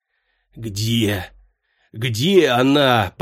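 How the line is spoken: Strained hoarse croak. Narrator (Russian): прохрипел Фес, как только смог разлепить сведенные судорогой губы

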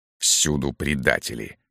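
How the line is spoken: Muttering. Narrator (Russian): бормотал Берия

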